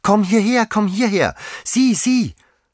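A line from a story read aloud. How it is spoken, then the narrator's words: Child calling, beside itself. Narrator (German): rief das Kind wie außer sich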